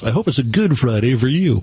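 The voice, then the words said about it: FM radio DJ voice. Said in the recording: “as I always say in my FM DJ voice”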